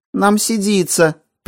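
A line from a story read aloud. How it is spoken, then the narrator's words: Squeaked. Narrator (Russian): пискнул мудак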